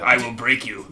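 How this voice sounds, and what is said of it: Put-on Russian accent. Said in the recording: “Okay, that's a better Russian accent.”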